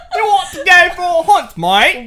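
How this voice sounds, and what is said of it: Exaggerated mock British accent. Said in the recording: “we're not gonna do the impressions ... You still sound like the fucking hello parrot ... Why do you sound like that? ... That's what the British sound like to me”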